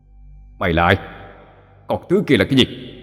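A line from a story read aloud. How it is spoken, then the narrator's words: Harsh growling voice. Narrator (Vietnamese): Bà Báo gằn giọng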